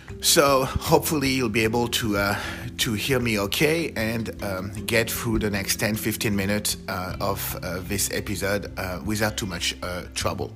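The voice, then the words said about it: French accent, hoarse failing voice. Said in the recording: “my French accent ... losing my voice ... the first thing to go is my voice”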